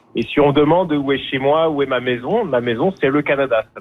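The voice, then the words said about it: French accent. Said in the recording (French): “comme on peut l'entendre à mon accent, je suis originaire de France”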